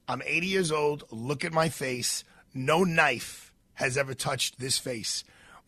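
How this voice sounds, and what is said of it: Imitated broken English accent. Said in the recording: “This is what she says in her broken English accent.”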